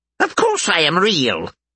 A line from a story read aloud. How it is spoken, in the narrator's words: Bob scoffed